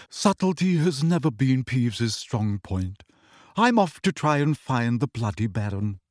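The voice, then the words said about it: Bored, flat character voice. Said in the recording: “in a bored voice.”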